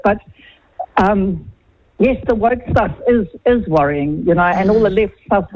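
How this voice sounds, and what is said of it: Speaks with a noticeable accent. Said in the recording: “my silly accent”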